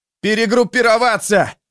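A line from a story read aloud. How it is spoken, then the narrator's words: Uncertain roar. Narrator (Russian): проревел он, не особенно понимая, кому он кричит, не особенно уверенный, что рядом остался хоть кто-нибудь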